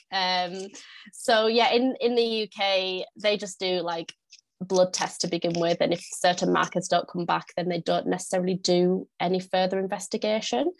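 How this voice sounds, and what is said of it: Northern English accent. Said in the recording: “if you can't tell from my accent, I am from the UK. I'm from the north of the UK. I live in York.”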